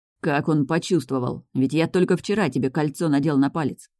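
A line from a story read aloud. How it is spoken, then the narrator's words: Grumbling. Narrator (Russian): ворчал любимый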